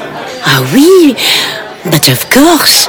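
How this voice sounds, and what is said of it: Put-on French accent. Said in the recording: “Your accent is very French. ... do you mind if I drop it though ... It's very exhausting me keeping it up.”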